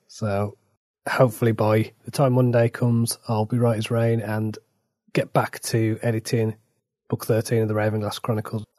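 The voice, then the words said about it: Rough, slightly hoarse voice. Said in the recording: “my voice is still a bit ropey”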